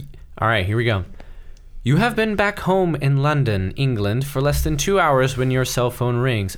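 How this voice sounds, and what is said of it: Usual voice. Nothing is said of it.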